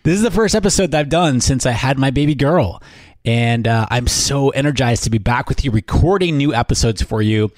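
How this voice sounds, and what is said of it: Tired, different-sounding voice. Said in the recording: “my voice sounds different from the last episode, this is the voice of not getting any sleep”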